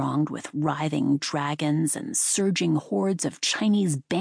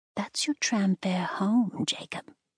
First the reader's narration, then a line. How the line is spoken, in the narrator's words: she chided gently